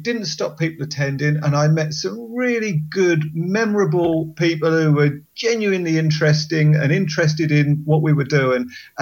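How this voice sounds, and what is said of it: Southern English accent. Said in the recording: “they're going to hear my accent ... Southern softie”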